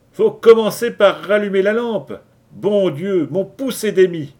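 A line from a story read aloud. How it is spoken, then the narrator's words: Surly sailor shouting. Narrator (French): cria Partson, un matelot au teint hâlé, qui était de caractère renfrogné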